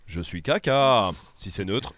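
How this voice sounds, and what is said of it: Put-on Swiss French accent, not great. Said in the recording (French): “j'ai fait l'accent suisse ... C'est mon accent qui est pas ouf.”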